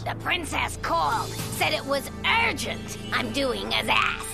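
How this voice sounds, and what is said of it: Brooklyn accent. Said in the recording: “evil Molly, with her evil Brooklyn accent, which I really enjoyed”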